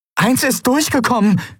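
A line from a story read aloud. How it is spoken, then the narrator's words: Calling out. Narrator (German): rief sie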